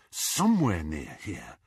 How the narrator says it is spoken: Harry muttered to himself

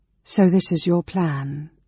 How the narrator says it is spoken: she said, speaking Qualinesti with a slight accent that Gilthus recognized as belonging to her people, the Sylvanesti

